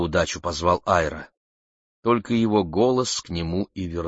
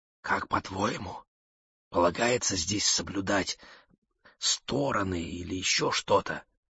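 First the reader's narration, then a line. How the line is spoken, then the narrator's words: Whispered. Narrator (Russian): прошептала Мэгги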